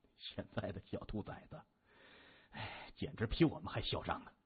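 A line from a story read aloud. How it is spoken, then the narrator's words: Muttering. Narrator (Chinese): 他摇头喃喃地说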